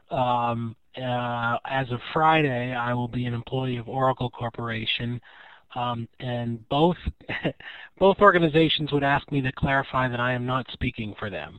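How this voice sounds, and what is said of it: Congested voice from a cold. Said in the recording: “I have a bit of a cold today. I hope that's not coming through.”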